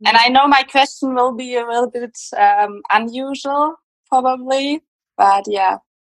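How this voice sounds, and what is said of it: German accent. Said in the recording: “Germany. I hope that's not a problem with the accent. ... I love your accent. It's so exotic.”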